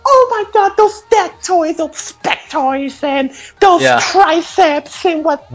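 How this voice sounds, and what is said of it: Put-on accent, gushing fangirl voice. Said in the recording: “Why are you doing that accent?”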